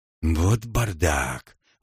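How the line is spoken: Exhaled. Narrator (Russian): выдохнул Франк

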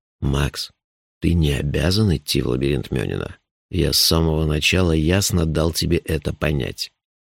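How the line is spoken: Quiet. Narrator (Russian): негромко сказал

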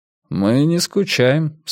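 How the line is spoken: Calm. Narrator (Russian): спокойно сказал Томас

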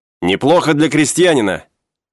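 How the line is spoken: Shouting. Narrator (Russian): крикнул он

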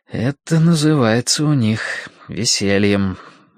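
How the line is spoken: Gloomy inner thought. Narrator (Russian): мрачно подумал Мэтью

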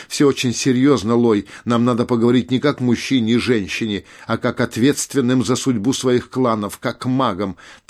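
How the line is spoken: Frightened cry. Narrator (Russian): маг испуганно вскричал

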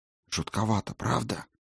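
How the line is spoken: Whisper. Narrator (Russian): шепот госпожи Клары

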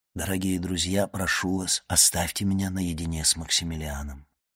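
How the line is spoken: Fatherly gentle, commanding. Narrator (Russian): он сказал им отечески мягко и повелительно

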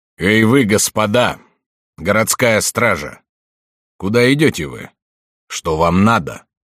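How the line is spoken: Plain. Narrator (Russian): спросил он

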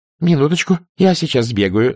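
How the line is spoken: Babbling. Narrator (Russian): залепетала она

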